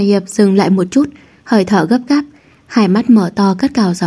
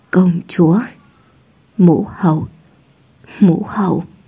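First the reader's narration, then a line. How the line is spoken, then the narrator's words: Trembling breathy speech. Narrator (Vietnamese): Môi Hà Hiệp run rẩy, nói cùng tiếng thở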